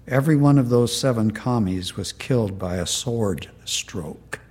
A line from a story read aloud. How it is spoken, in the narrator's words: he said gently